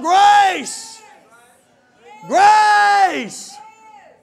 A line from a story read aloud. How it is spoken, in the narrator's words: you just yell out